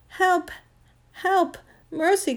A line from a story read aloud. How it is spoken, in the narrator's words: cried the witch in a faint voice